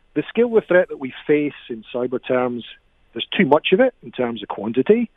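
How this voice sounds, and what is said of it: Scottish accent. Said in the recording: “I've got a Scottish accent. So when I talk about doom and gloom, it comes across really well with my accent.”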